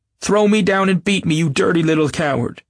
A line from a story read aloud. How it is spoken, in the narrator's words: she ... shouting